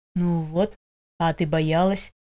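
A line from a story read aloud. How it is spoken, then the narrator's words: Whisper. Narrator (Russian): прошептал Эрихард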